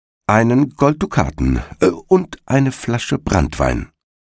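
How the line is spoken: Plain. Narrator (German): sagte der Igel

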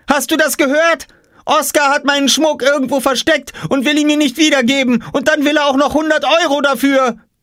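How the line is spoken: Shouting. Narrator (German): schrie Jule

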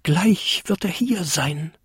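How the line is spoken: Excited whisper, small creature. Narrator (German): flüsterte der kleinste Winterkobold aufgeregt vor sich hin

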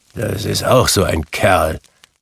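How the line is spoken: Grumbling. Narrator (German): brummte Scrooge, der es hörte

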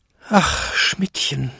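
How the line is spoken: Despairing groan, old man. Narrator (German): stöhnte Jakob in plötzlicher Verzweiflung, als er seine alten Beine zittern fühlte

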